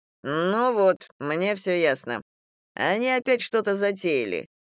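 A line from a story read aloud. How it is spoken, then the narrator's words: Scoffing snort. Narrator (Russian): хмыкнул Стас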